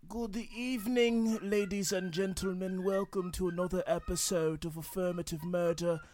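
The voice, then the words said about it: Put-on formal voice. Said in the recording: “I can't do that voice ... The reason I'm speaking this way”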